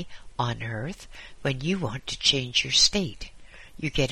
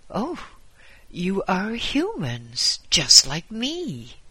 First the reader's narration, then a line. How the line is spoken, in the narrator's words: exclaimed